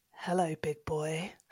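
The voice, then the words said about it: Seductive husky voice. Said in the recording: “Just really like seductively ... in your new accent ... it's hot”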